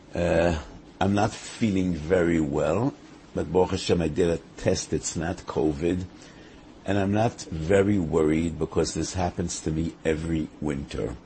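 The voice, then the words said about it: Craggy, strained sick voice. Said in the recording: “my voice is affected ... it's somewhat of an effort to me to speak ... my voice isn't very pleasant ... my craggy voice”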